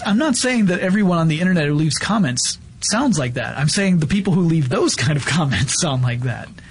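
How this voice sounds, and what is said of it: Usual voice. Nothing is said of it.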